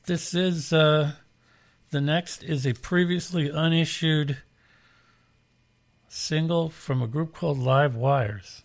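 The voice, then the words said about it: Hoarse, fading voice. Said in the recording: “Losing my voice here.”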